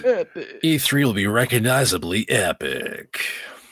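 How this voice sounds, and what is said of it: Imitates a trailer narrator voice. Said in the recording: “Honest Trailer's voice. Beautiful. ... I killed myself doing that voice today.”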